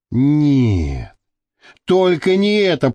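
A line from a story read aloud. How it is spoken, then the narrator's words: Moaning. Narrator (Russian): простонала Маша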